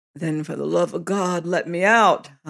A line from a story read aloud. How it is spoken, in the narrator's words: I groaned